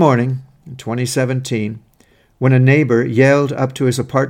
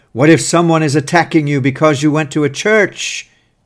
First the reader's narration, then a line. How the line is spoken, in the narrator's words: yelled